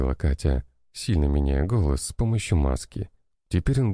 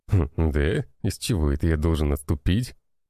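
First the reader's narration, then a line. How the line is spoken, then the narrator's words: Snorting. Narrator (Russian): хмыкнул тот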